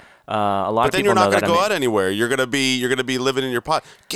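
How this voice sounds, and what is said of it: Usual voice. Nothing is said of it.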